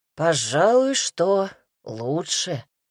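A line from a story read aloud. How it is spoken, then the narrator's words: Grumbling, giving in. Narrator (Russian): сдаваясь, проворчал Казимир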